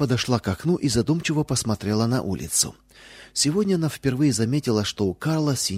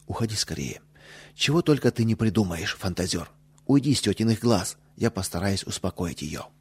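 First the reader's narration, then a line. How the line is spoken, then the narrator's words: Whisper in ear. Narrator (Russian): Лиза, шепнув на ухо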